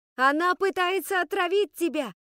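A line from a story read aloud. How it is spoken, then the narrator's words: Deafening shout. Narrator (Russian): оглушительно закричала Скарлетт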